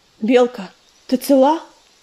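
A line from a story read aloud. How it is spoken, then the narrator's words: Hoarse rasp. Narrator (Russian): прохрипел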